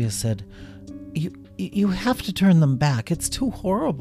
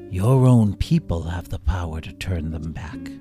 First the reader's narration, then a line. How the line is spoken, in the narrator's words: the Shadow King answered softly, his good humor dissipating as he lapsed back into his former brooding self